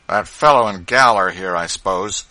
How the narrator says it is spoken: said he sullenly after a pause

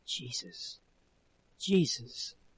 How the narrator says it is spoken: whispering

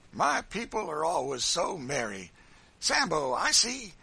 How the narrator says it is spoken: he said, speaking approvingly to a burly negro

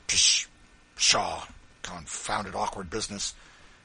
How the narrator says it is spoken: Bird grumbling to himself

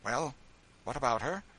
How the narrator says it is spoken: a flush rose to her sallow cheeks as she answered sharply

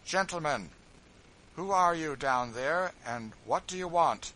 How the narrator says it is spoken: George … speaking in a calm, clear voice, said

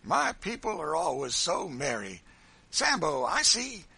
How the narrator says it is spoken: he said, speaking approvingly

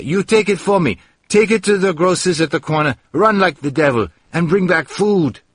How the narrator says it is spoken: I shouted to Maria

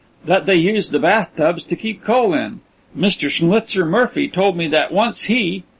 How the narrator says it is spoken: ventured John with an ingratiating laugh

